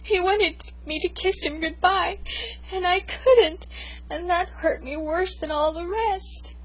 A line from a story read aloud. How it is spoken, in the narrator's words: I sobbed